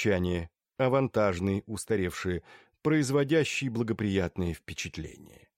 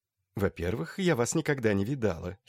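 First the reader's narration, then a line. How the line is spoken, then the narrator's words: Giggling. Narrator (Russian): хихикнул Тучин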